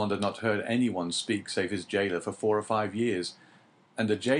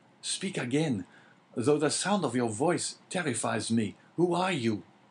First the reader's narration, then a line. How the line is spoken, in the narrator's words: cried Dante